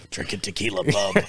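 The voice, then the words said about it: Wolverine character voice impression. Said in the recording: “my Wolverine impression”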